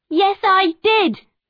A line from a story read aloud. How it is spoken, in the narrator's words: Alison cried